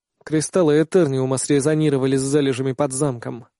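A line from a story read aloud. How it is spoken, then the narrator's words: Tired remark. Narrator (Russian): устало замечаю я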